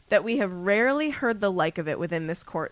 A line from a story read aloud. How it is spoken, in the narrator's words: said Crouch, speaking more loudly, drowning out his son's voice